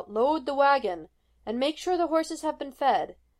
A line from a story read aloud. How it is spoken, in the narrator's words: voices were shouting orders